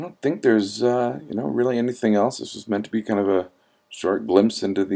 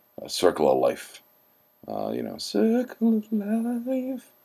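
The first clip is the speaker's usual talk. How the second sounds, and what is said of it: Lion King singing impression. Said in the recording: “my Lion King singing impression”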